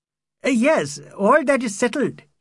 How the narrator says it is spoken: he cried

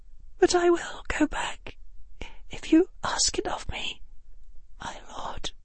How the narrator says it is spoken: her voice said, and then, in a smaller voice, a whisper that was barely there

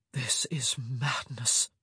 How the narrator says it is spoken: he whispered against her ear

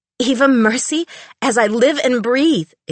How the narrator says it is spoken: exclaimed the fanged fan

